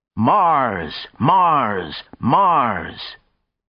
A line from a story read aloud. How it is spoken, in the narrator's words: others were shouting